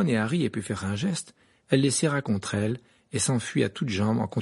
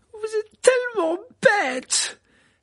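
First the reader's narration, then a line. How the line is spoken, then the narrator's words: Tearful, angry exclamation. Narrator (French): s'écria Hermione en tapant du pied, des larmes coulant sur sa robe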